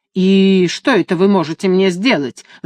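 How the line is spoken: Angry answer. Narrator (Russian): злобно ответил тот

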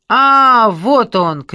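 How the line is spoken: Shout. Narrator (Russian): крикнула Лора

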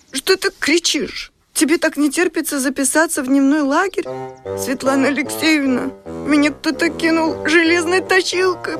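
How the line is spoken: Whiny, whimpering. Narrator (Russian): прохныкала Ксюша

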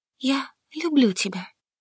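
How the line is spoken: Passionate whisper. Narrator (Russian): прошептала, когда страсть достигла пика

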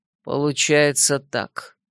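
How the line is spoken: Gloomy. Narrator (Russian): мрачно кивнул

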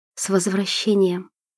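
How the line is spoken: Whispered in ear. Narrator (Russian): прошептала ему на ухо

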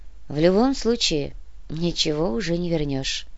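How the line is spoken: Sad remark. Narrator (Russian): грустно заметила Яна

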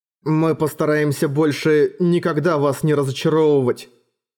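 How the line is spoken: Plain. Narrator (Russian): сказал он

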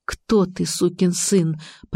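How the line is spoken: Muttering. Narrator (Russian): пробормотала я

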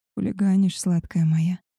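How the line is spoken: Wolf's hoarse rasp. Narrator (Russian): прохрипел волк

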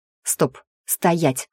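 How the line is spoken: Irritated command. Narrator (Russian): раздраженно приказала

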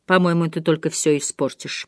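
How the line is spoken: Muttered. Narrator (Russian): пробормотала

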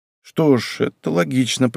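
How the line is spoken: Muttered. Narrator (Russian): пробормотал он

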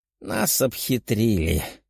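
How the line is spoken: Old man sighing. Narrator (Russian): вздохнул второй старик

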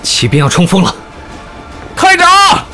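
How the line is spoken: Shout choked by dust. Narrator (Chinese): 费胜喊到一半被灰尘呛住了

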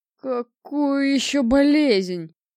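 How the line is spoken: Moaning. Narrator (Russian): простонал начальник станции

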